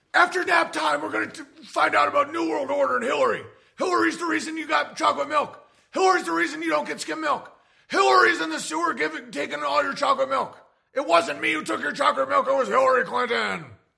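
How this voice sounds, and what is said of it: Alex Jones impression. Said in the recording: “do an impression of Alex Jones teaching a kindergarten class about New World Order.”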